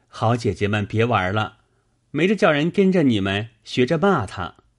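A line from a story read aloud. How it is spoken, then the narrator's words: Hasty, laughing. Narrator (Chinese): 宝玉忙笑说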